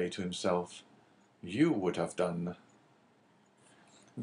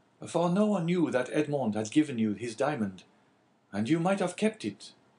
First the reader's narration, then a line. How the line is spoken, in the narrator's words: cried Caderousse